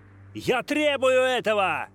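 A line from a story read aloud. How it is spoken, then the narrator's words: Shouted again. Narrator (Russian): Опять крикнул Грант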